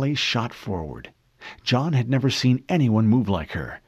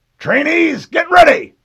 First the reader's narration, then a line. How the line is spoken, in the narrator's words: Mendez shouted